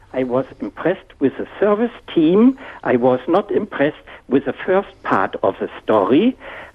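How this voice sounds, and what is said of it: Noticeable non-Australian accent. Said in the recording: “you can hear from my strange accent, I'm still a visitor and a guest for 22 years here in Australia”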